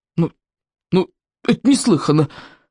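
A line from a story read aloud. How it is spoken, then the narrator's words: Hesitant objection. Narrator (Russian): неуверенно возразила Берта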